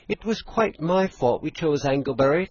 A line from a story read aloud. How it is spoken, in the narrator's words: Thomason pleaded